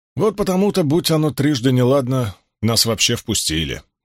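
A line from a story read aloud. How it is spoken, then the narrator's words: Gloomy reply. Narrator (Russian): мрачно отозвался Уно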